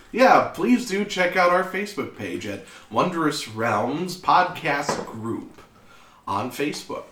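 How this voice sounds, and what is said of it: Good radio voice. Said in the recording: “You've got a good radio voice, my dude.”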